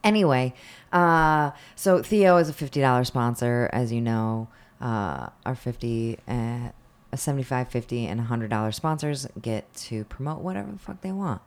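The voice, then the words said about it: Husky, throaty voice. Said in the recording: “I have a frog in my throat.”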